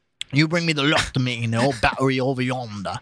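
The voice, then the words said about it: Put-on accent while reading aloud. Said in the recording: “My fucking accent is failing me. ... No, it's good. It's good.”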